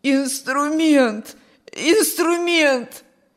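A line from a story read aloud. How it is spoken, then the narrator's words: Wheezing. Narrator (Russian): сипел Петр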